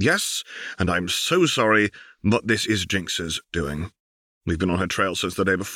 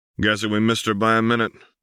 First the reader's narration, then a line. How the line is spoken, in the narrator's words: Vi said dryly